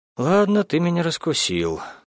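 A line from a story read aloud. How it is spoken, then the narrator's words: Sighing. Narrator (Russian): я вздохнула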